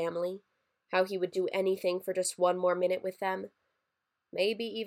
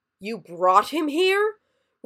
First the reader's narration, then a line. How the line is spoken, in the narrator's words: roared an enormous Yeti Santa